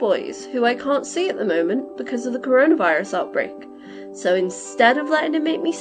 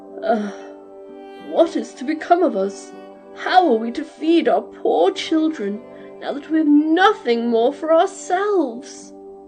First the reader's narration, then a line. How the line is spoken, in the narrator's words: all full of cares and worries, he sighed and said to his wife